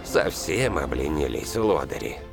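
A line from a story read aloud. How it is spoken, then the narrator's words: Grumbled. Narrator (Russian): пробурчал Сан Саныч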